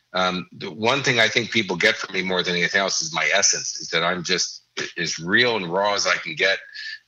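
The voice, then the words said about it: Chicago urban accent, clipped consonants. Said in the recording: “I don't have perfect diction. I still have my improper Chicago urban accent, you know, and I cut off vowels and letters and consonants and stuff”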